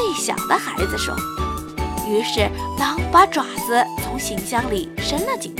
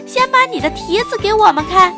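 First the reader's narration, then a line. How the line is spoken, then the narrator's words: Shouting. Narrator (Chinese): 他喊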